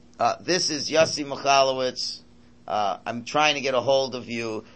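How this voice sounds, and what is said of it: Flat monotone answering-machine voice. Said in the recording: “It's a very monotone.”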